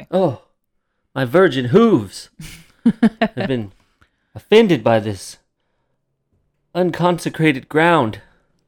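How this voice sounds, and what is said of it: Comic voice playing a stallion. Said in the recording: “That's my impression of a virgin stallion.”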